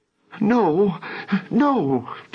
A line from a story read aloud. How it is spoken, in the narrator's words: Jennifer whimpered